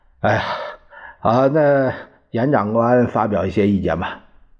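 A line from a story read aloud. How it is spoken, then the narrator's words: Long sigh. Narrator (Chinese): 何应钦长叹一声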